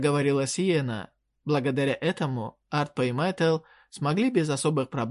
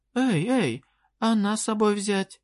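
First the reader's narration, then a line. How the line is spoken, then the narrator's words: Quick exclamation. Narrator (Russian): тут же воскликнула Вадинетта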